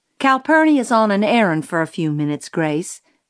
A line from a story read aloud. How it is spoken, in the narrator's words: said Miss Maudie